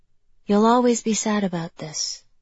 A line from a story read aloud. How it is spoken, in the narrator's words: Mia said softly